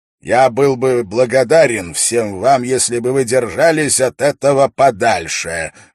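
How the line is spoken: Loud and clear. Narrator (Russian): громко и четко произнес Дункан

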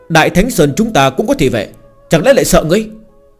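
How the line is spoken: Angry child, fierce. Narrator (Vietnamese): càng thêm tức giận, tuổi còn nhỏ nhưng mặt mũi vô cùng tàn bạo

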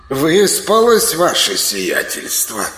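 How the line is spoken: Somewhat sarcastic question. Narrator (Russian): Несколько язвительно поинтересовался тощий

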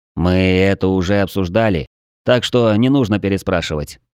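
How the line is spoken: Weary reply. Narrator (Russian): устало отозвался Влад

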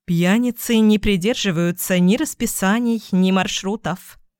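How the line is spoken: Calm. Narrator (Russian): спокойно сказала фрау Кох

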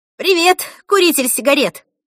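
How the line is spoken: Shouted. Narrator (Russian): прокричала она папе

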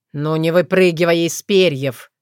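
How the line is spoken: Wry snort. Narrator (Russian): хмыкнул он

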